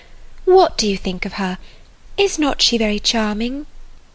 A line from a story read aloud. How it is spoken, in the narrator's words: with a gentle sigh